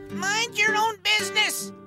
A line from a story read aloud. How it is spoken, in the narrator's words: we heard Grandma shout